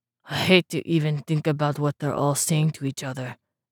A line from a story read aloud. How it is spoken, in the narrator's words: Gaier mumbled